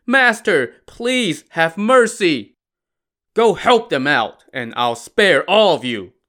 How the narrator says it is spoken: Lu Zhishen barked to the rest of the gang

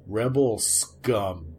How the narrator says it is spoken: he growled

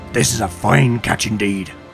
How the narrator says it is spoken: growled Denwald

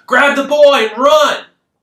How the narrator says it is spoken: someone close by yelling

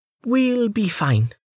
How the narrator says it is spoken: Amelia said tightly

